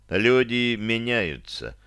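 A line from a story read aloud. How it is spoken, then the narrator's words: Said calmly. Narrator (Russian): спокойно произнес я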